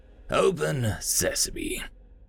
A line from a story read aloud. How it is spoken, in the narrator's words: called out, still chuckling